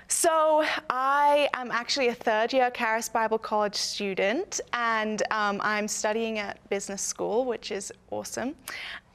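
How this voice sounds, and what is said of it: British accent. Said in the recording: “I am not American. I'm actually British ... my accent”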